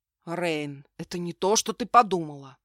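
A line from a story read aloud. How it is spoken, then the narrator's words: Muffled growl. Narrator (Russian): глухо прорычал Дейсар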